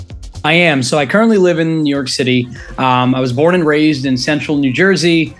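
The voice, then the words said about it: American accent. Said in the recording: “Obviously you have the American accent.”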